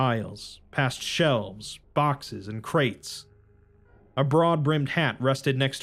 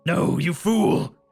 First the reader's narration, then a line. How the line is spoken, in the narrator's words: The Everman shouted